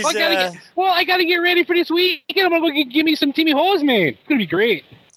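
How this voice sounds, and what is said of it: Put-on prairie Canadian, Minnesota accent. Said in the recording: “I knew he was pulling that accent out. ... He's got a little bit of Green Bay in there too. With that accent. ... It's a mix of Minnesota and like Letterkenny, you know, prairie Canadian.”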